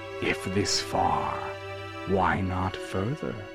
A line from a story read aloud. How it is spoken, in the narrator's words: the Herald whispered in his ear